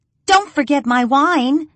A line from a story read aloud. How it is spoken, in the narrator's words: Raven hollers after him